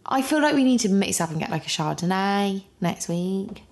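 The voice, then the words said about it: Put-on accent. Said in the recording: “What was that accent?”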